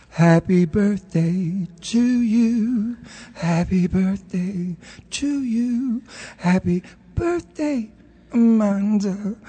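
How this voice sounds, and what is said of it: Imitates another person's voice, singing. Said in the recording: “in his Marilyn Monroe voice”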